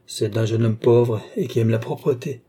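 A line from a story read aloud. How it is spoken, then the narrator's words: Cold. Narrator (French): dit froidement Balsamo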